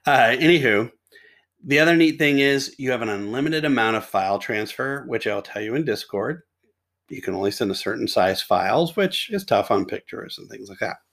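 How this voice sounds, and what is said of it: Deeper, sore-throated voice. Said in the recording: “I just got a sore throat this afternoon ... I have a deeper, cooler voice today.”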